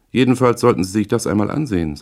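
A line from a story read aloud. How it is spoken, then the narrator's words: Plain. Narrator (German): sagte sie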